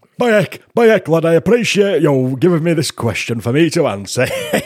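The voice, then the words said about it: Put-on Yorkshire pageant voice. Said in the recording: “Little Miss Yorkshire... do an impression. You could just be you.”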